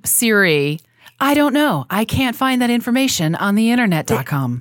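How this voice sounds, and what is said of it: Siri voice impression. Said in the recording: “How does Siri sound? ... Can you do a Siri accent?”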